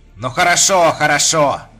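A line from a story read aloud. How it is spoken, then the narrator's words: Grumbling. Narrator (Russian): проворчал он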